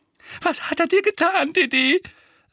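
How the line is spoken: Trembling voice. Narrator (German): sagte Tante Petunia mit zitternder Stimme

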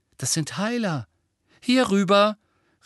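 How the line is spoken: Called. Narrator (German): rief Mrs

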